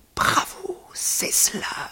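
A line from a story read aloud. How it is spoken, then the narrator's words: Murmur. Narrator (French): murmura-t-il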